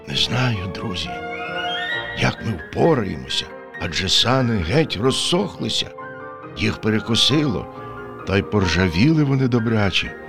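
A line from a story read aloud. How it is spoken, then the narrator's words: Sad wolf. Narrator (Ukrainian): сумно підсумував вовк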